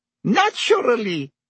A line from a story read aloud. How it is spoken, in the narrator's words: said Madame Rosmerta with a small laugh